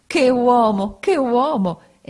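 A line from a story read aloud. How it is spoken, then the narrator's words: Exclaimed. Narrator (Italian): esclamò Peggotty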